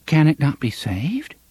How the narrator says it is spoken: she asked, rather timidly

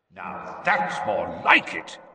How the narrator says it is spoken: growled Moody's voice

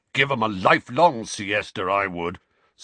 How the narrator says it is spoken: snarled Uncle Vernon over the end of the newsreader's sentence

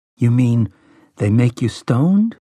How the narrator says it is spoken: Jake asked, rather uneasily

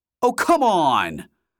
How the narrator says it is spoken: shouted

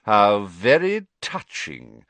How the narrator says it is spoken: sneered Snape

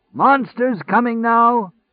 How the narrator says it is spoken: the monster shouter called

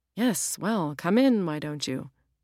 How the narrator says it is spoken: Julia grunted

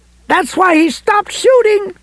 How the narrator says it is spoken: Lois screamed

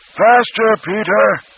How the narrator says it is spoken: Roland bellowed

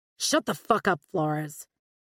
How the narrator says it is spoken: snarled Eric

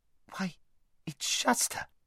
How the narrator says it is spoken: Shasta, all at once, turned very red and began speaking very quickly

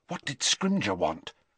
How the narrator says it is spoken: Hermione whispered

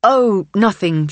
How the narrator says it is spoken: she says

